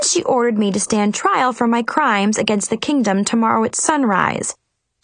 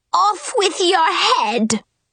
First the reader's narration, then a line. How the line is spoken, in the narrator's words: The Queen of Hearts screamed